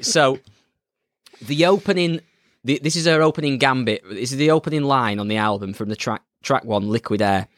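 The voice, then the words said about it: Northern English accent. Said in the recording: “my northern blooming chimney sweep accent”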